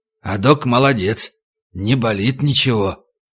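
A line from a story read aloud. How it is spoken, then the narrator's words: Quiet indistinct whispering. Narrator (Russian): зашушукались, тихо, невнятно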